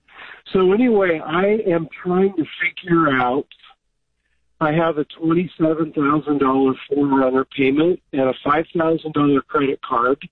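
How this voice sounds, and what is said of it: Congested voice from a cold. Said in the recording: “I have a bad cold”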